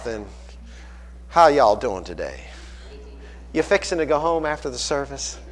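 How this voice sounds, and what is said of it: Put-on Southern US accent. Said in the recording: “some of you from down south”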